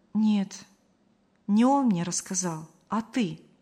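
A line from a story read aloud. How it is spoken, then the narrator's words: Calm. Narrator (Russian): спокойно сообщила Мария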